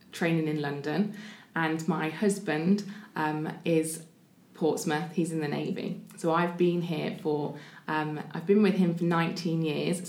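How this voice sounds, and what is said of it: Northern English accent. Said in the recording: “I'm not sure if you can hear my accent. I am a northerner”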